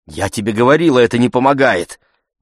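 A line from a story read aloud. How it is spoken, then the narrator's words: Exclamation. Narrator (Russian): воскликнула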